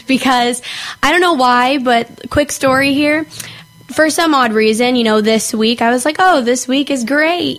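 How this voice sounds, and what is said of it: Hoarse, strained voice. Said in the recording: “my voice sounds a little bit weird today... I just lost my voice all of a sudden, sounded like I was sick”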